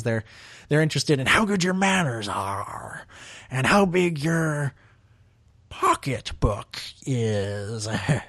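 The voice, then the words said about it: Terrible Dexter Jettster impression. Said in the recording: “That's my terrible Dexter Jester impression”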